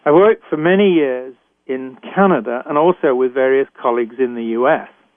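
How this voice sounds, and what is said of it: British accent. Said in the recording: “I was trained in Britain, as I'm sure you can tell from my accent.”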